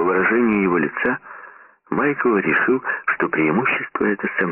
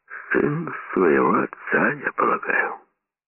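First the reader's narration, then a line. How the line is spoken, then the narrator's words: Muttered. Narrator (Russian): Сомс пробормотал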